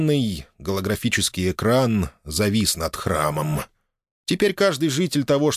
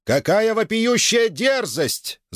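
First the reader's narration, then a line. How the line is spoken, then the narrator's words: Host yelling over loudspeakers. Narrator (Russian): завопил голос ведущего из громкоговорителей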